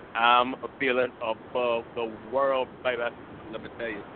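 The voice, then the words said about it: Elvis-style impression voice. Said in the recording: “So is this our Elvis impersonation we got going on?”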